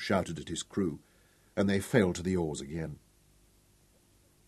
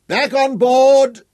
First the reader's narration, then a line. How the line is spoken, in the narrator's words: Tom roared triumphantly